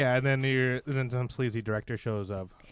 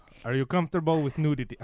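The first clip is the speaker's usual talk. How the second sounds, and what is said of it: Put-on Russian accent. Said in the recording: “Why did I give him an accent? ... Russia, topical still?”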